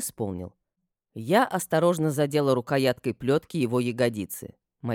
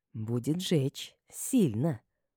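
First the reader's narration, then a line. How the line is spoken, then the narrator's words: Whisper. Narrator (Russian): прошептала я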